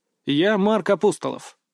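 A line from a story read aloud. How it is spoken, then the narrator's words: Calm reply. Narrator (Russian): спокойно ответил я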